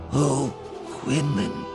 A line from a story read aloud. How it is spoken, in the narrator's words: she said brokenly, aching with compassion